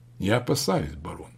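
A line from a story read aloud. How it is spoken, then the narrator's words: Completely calm. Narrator (Russian): заговорил он совершенно спокойно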